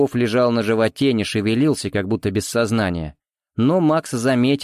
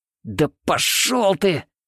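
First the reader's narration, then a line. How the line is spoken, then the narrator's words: Thief through gritted teeth. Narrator (Russian): Сквозь зубы процедил вор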